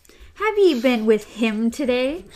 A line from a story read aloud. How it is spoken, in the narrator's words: Cordelia asked in a brittle, laughing voice